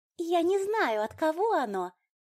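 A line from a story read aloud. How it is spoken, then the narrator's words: Pleased squeak. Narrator (Russian): довольно пискнула она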